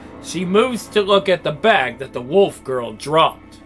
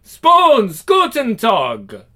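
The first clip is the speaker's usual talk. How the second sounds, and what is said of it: Strong put-on German accent. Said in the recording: “In a strong German accent.”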